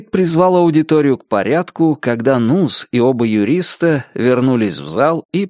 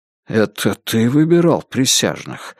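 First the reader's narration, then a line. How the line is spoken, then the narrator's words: Quiet question. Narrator (Russian): негромко спросил Карл Ли у Джейка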